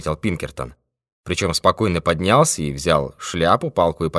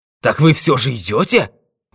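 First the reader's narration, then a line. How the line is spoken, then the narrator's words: Joyful exclamation. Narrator (Russian): воскликнул Смит, и как бы луч радости пробежал по его лицу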